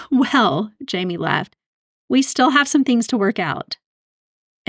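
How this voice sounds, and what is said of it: Usual voice. Nothing is said of it.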